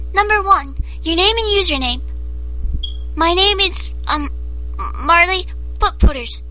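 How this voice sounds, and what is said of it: Scary put-on character voice. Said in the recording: “I do really weird things with my voice ... this weird, stupid accent thing ... I have to get into the voice. The voice is scary.”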